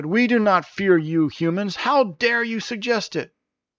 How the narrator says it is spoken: Maneran angrily shouted

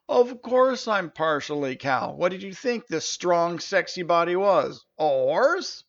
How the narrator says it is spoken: The centaur erupted in laughter and said

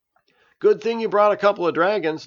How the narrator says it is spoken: laughed Juice

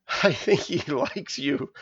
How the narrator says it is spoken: laughed Rosera

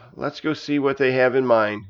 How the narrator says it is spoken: he grumbled

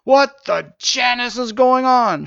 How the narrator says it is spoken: shouted Jarvis

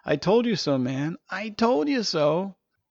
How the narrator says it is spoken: Janice was giggling now, and at risk of erupting into full-fledged laughter while shaking his head and repeating

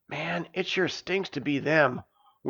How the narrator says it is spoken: whispered Janus when they were far enough away not to be overheard

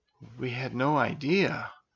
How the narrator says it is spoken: whispered Elisa

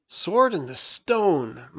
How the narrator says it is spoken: muttered Merlin with approval

